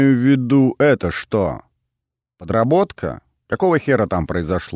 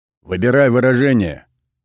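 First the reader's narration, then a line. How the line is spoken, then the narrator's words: Growling thug. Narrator (Russian): рыкнул один из бугаев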